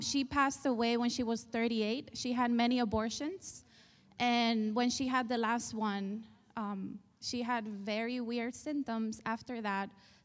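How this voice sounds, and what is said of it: Spanish accent. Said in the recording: “I was raised in Spain. You probably hear the accent.”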